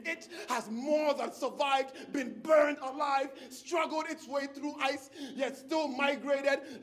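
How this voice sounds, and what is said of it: West African accent. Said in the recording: “my West African accent ... the way I sound ... this sexy, saucy, juice-honed, toned inflection”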